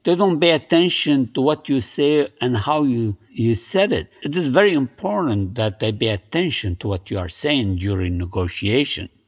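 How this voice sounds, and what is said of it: Thick foreign accent. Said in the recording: “I have an accent, thick accent.”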